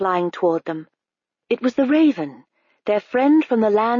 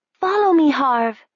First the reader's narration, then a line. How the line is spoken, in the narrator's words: she cried